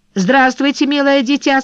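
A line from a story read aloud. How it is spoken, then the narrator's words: Cheeky, overfamiliar tone. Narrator (Russian): сказал он развязанным тоном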